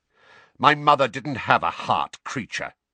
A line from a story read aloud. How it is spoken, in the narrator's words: snapped Sirius